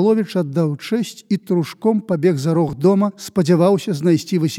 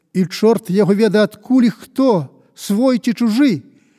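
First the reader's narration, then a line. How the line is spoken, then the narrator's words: Shouted after someone. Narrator (Belarusian): крыкнуў яму капітан удагон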